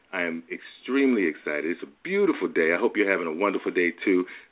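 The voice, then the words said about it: Excited, energetic voice. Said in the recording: “I am really, really excited. You can probably hear it in my voice.”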